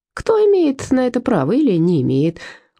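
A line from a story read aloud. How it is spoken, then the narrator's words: Cheerful. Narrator (Russian): весело продолжил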